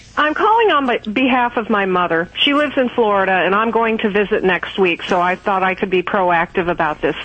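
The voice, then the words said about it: Kentucky Southern American accent. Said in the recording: “Y'all, where are you calling from, y'all? ... Kentucky. ... I just love that accent.”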